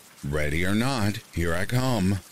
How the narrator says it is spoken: I exclaim

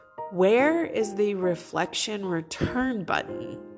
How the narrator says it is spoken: said Lucy's reflection

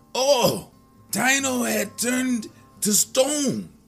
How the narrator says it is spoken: he cried out in dismay

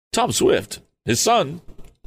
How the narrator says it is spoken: cried the man, and he seemed much agitated

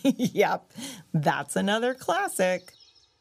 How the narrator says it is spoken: Flip-Flop chuckled and said

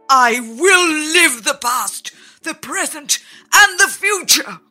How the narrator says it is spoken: he cried

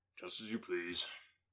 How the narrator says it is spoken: without raising his head, coolly replied

